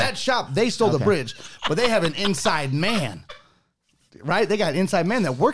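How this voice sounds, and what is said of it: Usual voice. Nothing is said of it.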